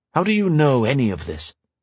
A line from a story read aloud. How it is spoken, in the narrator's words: Shay sighed